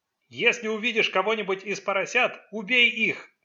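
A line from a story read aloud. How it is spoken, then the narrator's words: Ghost shouting. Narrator (Russian): крикнул призрак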